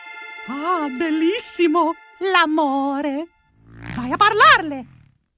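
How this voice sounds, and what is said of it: High-pitched falsetto cartoon mouse voice. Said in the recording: “just by nature of the high-pitched sound ... Mickey Mouse ... you'd recognize that falsetto anywhere”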